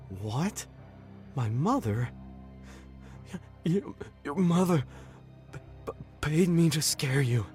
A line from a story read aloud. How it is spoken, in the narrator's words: he sputtered